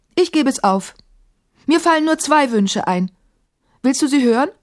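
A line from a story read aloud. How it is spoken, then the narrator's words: Called out. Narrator (German): rief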